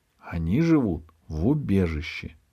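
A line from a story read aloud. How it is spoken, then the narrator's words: Plain. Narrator (Russian): сказала речка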